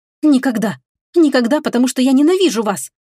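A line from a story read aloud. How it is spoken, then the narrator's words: Near shout. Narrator (Russian): Почти крикнула я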